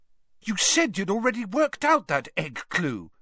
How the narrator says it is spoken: said Hermione indignantly

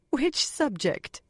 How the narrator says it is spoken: Moiraine asked, half laughing

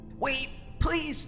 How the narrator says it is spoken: Alistar croaked

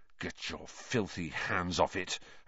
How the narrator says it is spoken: Harry snarled under his breath

